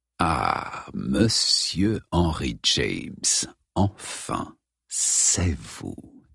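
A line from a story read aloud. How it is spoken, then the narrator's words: Hissed. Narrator (French): siffla Moriarty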